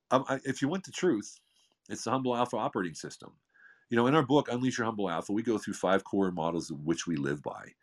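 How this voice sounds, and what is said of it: Smooth resonant radio voice. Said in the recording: “that beautiful radio voice”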